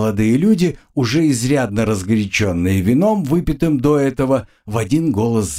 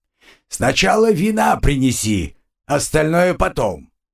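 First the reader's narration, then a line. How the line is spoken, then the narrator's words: Shouted after someone. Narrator (Russian): уже во след убежавший крикнул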